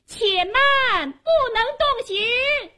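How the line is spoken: Loud female shout. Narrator (Chinese): 忽听有个女子高声喊道

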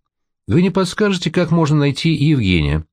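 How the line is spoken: Polite young man on phone. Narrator (Russian): говорит в трубке вежливым голосом молодой человек

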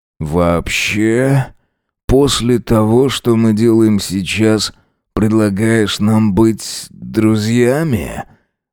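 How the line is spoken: Hoarse voice. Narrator (Russian): Голос Джеймса звучал хрипло

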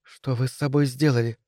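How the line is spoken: Woman's whisper. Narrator (Russian): прошептала я

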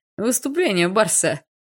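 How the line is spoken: Chuckling. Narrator (Russian): хохотнул Леха

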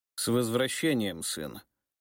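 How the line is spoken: Even voice. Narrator (Russian): произнес он ровным голосом

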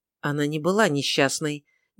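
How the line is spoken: Soft interrupting young woman. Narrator (Russian): негромко произнесла, прервав священника, девушка

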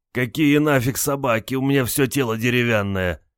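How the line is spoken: Groaning. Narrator (Russian): Простонал Олег

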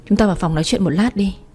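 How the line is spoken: Stammering. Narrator (Vietnamese): Tôi lắp bắp

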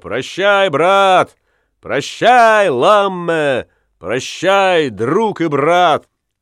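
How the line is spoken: Crowd shouting farewell. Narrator (Russian): матросы, юнги и солдаты кричали

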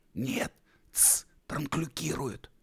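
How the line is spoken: Whisper. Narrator (Russian): прошептал Би

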